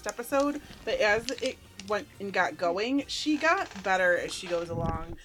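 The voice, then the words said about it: Valley Girl speaking style. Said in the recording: “I got the Valley Girl thing going on”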